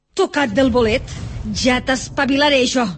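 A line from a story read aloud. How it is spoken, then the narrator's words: Woman shouting. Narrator (Catalan): cridava la dona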